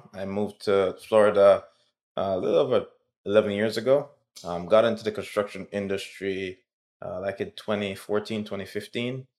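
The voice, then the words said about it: Jamaican accent. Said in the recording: “If you hear that accent, it's because I'm from Jamaica.”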